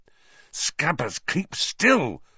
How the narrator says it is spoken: Ron hissed

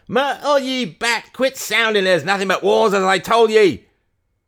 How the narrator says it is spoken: Barnstable screamed out, his head jerking to one side

